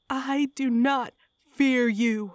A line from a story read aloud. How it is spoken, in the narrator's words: I howled with Malthinos, giving myself over fully to the possessing entity